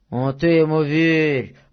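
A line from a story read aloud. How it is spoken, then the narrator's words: Muffled droning voice. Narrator (Russian): прогудел другой боец из-под поднятого ворота шинели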